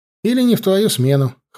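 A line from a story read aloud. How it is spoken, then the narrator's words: Wry snort. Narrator (Russian): хмыкнул я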